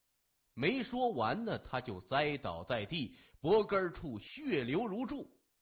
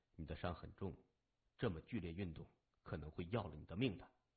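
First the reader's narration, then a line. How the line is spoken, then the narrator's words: Flat, calm. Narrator (Chinese): 他只是淡淡的说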